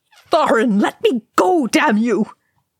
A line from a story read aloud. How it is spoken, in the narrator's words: Balin howled